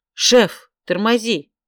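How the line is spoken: Shouting. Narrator (Russian): крикнула я

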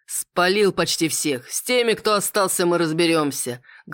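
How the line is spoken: Man laughing thunderously. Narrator (Russian): громогласно расхохотался мужчина

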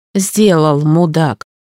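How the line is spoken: Grumbling. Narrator (Russian): проворчала я

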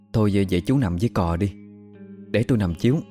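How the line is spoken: Teary child. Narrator (Vietnamese): Mắt nó rưng rưng

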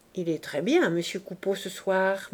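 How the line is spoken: Murmured into ear. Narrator (French): murmura Clémence à l'oreille de Boche

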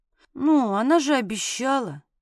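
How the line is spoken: Mumbling. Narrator (Russian): промямлила

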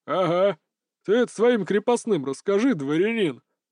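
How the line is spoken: Laughing. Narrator (Russian): Засмеялся татарин

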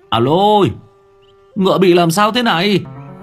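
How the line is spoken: Sudden cry. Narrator (Vietnamese): Người quản ngựa bỗng nhiên kêu lên

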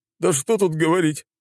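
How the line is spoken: Sobbing. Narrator (Russian): всхлипнул генерал

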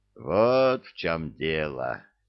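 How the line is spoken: Wry grunt. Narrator (Russian): хмыкнул капитан

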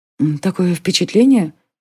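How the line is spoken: Involuntary whisper, girl. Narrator (Russian): невольным шепотом сказала девушка

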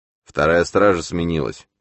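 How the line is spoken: Displeased grumble, burly man. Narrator (Russian): недовольно пробурчал подобный медведю работник

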